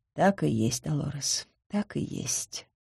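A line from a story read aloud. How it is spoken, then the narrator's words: Murmured. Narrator (Russian): пробормотала сеньора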